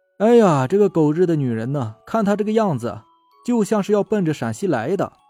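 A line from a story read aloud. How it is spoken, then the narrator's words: Laughing. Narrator (Chinese): 王志笑着说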